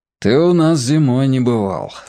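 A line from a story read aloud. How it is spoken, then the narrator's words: Father's sigh. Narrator (Russian): вздохнул Сенин папа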